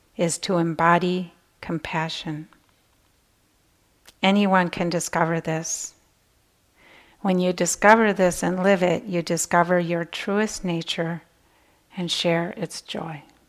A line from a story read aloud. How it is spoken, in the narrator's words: said quietly